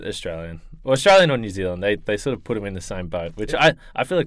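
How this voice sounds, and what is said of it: Australian accent. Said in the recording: “himself, you may notice from the accent ... oh, you have an accent ... Australian”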